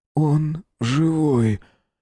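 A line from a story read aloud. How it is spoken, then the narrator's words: Hoarse whisper. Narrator (Russian): хрипло прошептал Руднев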